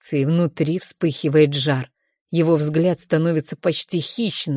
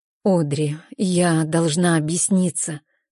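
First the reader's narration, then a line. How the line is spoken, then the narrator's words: Trembling voice. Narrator (Russian): начинает она дрожащим голосом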